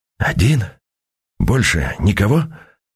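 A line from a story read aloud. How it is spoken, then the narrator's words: Whispered question. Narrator (Russian): переспросил шепотом Константин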